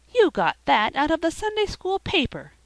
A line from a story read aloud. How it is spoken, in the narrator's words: cried Felicity